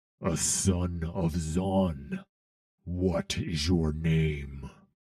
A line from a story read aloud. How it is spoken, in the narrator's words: he growled